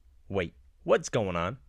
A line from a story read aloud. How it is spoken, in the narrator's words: Kip blurts out